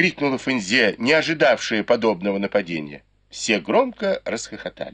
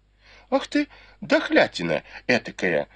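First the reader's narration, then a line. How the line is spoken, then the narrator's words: Cursing. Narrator (Russian): выругалась Фэнзе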